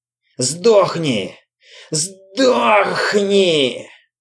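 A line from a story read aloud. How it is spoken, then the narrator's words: Hoarse rasping. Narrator (Russian): хрипел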